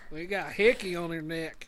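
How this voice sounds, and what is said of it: Southern accent coming through. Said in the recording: “It sounds really like southern too ... I said it and I like felt my accent kicking in.”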